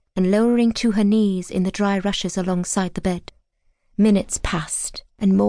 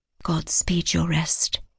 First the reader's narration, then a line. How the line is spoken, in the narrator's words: she whispered